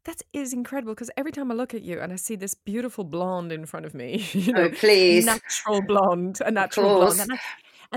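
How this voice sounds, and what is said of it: Swiss speaker with American-style accent. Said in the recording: “I have this fake American accent. I'm from Switzerland.”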